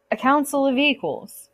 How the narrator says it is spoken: Poseidon said

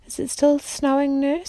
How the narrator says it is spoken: she asked sleepily

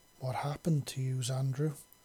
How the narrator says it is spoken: She asked softly

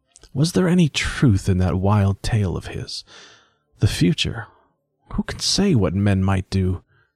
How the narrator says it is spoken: he half whispered

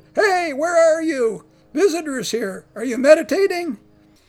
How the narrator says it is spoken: Zhongguang, undaunted by the signs of repose, shouted

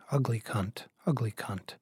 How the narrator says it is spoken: Laura muttering

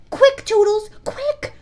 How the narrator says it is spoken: she cried

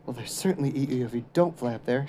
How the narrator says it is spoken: whispered back

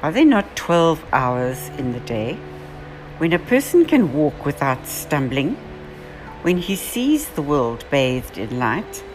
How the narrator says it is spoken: Jesus calmly says

